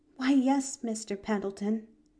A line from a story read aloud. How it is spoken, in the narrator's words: breathed Pollyanna, her eyes luminous with sympathy